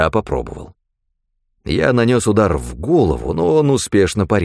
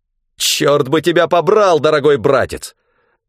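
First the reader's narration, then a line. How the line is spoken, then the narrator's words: Angry bark. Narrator (Russian): Злобно рявкнул он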